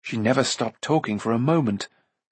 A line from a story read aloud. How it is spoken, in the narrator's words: Taran said gloomily